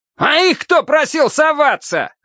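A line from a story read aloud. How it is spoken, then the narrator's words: Yelling. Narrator (Russian): завопил однозвездный командир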